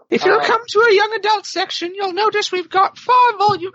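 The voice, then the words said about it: British accent, Terry Jones impression. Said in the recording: “That morphed into a British accent. ... That was Terry Jones all of a sudden.”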